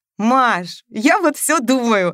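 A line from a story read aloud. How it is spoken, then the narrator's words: Joyful shouting. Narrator (Russian): радостно кричала она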